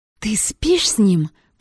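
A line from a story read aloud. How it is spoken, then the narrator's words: Hissing. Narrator (Russian): прошипела светловолосая Мегера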